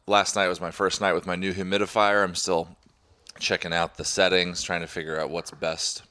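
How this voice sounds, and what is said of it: Slightly messed-up, sinus-affected voice. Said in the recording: “my voice is a little bit messed up ... That's not going to help your sinuses”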